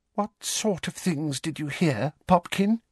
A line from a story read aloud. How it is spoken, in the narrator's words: breathed Aunt Petunia, very white-faced and with tears in her eyes